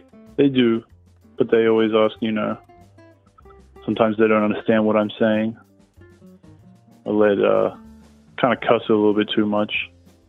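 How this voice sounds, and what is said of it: Australian accent. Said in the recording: “your Australian accent?”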